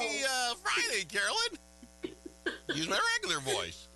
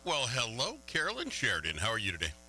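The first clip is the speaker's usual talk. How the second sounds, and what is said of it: Polished matter-of-fact radio announcer voice. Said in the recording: “That sounded very, I don't know, matter of fact there... Your total radio voice on there.”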